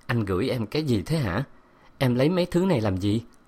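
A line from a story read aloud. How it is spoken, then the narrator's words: Eager quiet voice. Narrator (Vietnamese): Tôi háo hức nhỏ giọng nói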